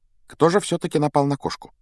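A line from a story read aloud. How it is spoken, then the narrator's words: Quiet question, continuing conversation. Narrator (Russian): Негромко спросила она, как будто продолжила прерванную беседу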